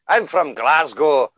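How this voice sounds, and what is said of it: Put-on Glaswegian Scottish accent. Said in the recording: “is this racist if I do this voice?”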